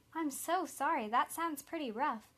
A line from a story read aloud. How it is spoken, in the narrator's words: Kelly replied